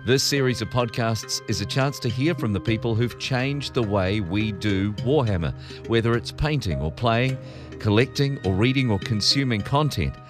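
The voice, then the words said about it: New Zealand accent. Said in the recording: “Forgive my Kiwi accent”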